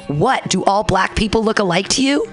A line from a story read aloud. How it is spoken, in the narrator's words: The manager subsequently yelled